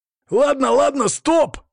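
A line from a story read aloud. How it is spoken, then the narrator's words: Desperate yell. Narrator (Russian): отчаянно завопил водила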